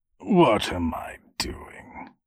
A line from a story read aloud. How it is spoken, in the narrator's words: He muttered, and began again in a patronizing tone